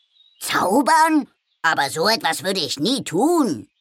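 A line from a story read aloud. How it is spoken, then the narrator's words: Calling out. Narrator (German): rief Carlo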